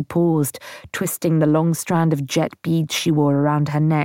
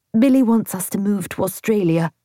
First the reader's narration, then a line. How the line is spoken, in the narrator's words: she blurted out